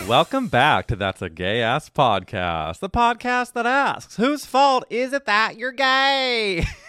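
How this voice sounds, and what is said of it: Slight southern drawl. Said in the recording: “I just noticed a southern drawl come in there”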